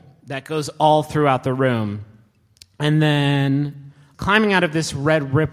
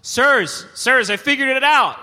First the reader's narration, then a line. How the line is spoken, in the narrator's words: Angus is up on the bleachers and he shouts